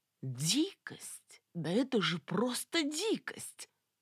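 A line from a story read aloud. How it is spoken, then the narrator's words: Exclaiming. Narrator (Russian): воскликнул Виталик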